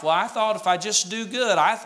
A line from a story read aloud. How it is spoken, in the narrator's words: Jesus said